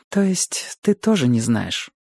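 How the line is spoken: Sighing. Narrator (Russian): вздохнула она

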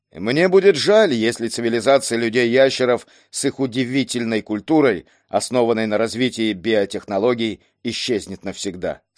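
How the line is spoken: Plain. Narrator (Russian): сказал он

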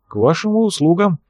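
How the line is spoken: Hesitant, uncertain voice. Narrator (Russian): неуверенно произнес бывший студент Петербургского университета

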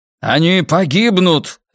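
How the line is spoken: Bark. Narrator (Russian): рявкнул Брус

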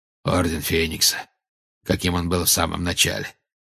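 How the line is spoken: Growling. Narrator (Russian): прорычал Грюм

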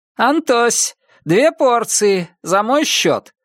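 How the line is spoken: Shouted, blond man. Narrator (Russian): крикнул блондин

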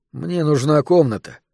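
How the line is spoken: Weary. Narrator (Russian): устало произнес Бартон

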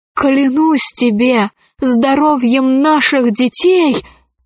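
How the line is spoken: Exclaimed. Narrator (Russian): воскликнул он

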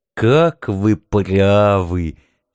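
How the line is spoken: Philosophical purr. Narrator (Russian): философски мурлыкнул Кролик

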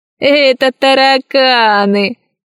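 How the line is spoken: Laughing pirate. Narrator (Russian): засмеялся другой пират

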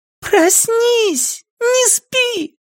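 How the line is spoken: Shouting right in ear. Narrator (Russian): орала Цифраль прямо ему в ухо

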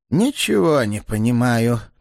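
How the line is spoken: Choked, breathless exhale. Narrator (Russian): придушенно выдохнул Флевретти, то бледнее, то краснее на глазах

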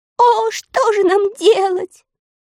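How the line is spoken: Inconsolable sobbing. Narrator (Russian): безутешно рыдали живуны

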